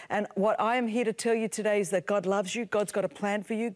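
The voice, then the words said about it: Greek Australian accent. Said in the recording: “this Greek Australian chick with a strange accent”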